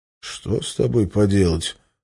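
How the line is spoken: Sigh. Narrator (Russian): вздохнул я

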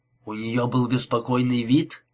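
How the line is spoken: Plain question. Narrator (Russian): спросил он

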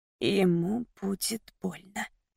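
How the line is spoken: Anxious whisper. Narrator (Russian): прошептала я, не справившись с тревогой

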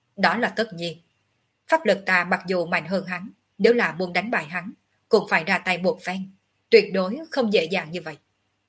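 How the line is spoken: Arrogant, cold. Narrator (Vietnamese): Ngọc Hư Tử tầm cao khí ngạo, lạnh lùng nói tiếp

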